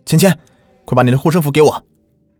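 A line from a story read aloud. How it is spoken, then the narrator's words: Loud yell. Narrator (Chinese): 左文思 大叫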